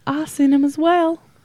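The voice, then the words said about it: Struggling attempt at British accent. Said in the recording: “I try to do an accent... I can't get him British accent... I struggle so hard with an accent”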